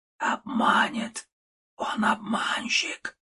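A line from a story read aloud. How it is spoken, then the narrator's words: Whisper. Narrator (Russian): шептала голова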